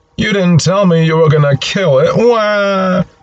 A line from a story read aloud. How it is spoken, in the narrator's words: Linus looks properly horrified as he wails out